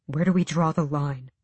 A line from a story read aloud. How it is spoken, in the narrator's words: Sam asked her quietly